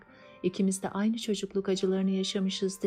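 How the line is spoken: Plain. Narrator (Turkish): dedi

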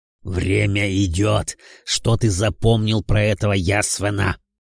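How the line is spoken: Impatient growl. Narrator (Russian): Теряя терпение, прорычал Велиафон

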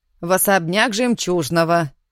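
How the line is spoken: Stern. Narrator (Russian): уточнила Матрёша строгим тоном

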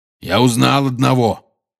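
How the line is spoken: Growled. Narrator (Russian): прорычал Хагрид

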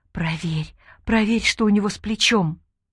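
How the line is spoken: Whispered in ear. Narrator (Russian): зашептала ей в ухо Айше

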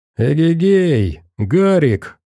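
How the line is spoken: Cheerful shout. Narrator (Russian): весело крикнул кто-то

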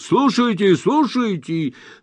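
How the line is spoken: Patronizing shout. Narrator (Russian): Мистер Джингль покровительственно крикнул

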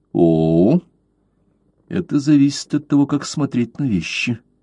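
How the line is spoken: Calm. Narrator (Russian): спокойно сказал Блад

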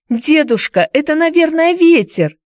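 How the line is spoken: Child's shout. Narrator (Russian): крикнула Хайди

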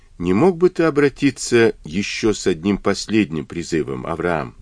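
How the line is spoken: Plain. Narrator (Russian): спросила она

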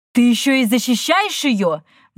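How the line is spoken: Shrill shriek. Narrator (Russian): взвизгнула Тора

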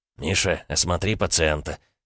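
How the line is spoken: Quiet. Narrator (Russian): тихо проговорил Глеб

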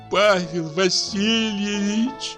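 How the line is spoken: Tearful moan. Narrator (Russian): простонала барыня, и глаза ее наполнились слезами

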